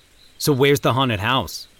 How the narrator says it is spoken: Brad asked curtly

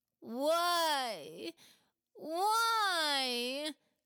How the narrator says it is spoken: Khawler moaned

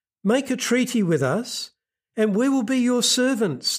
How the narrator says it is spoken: pleaded

